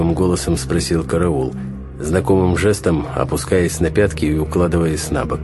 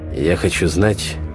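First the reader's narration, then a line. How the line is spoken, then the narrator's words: Tense voice. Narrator (Russian): сказал я напряженным голосом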